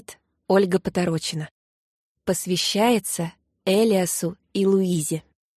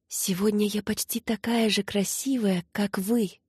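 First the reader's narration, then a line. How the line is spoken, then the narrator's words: Laughing whisper. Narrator (Russian): шептала она небу, со смехом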